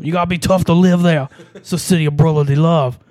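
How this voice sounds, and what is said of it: Put-on Philadelphia accent drifting Irish-Scottish. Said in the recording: “talking like a real Philadelphia ... I'm getting progressively Irish and Scottish.”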